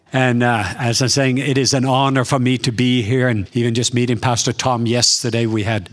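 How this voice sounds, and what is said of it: Norwegian accent. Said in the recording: “I have a true Southern accent ... I am from the south part of Norway”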